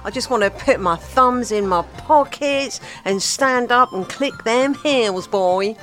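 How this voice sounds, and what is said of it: Country and western accent. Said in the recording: “Don't know why I said it like that, with that sort of accent.”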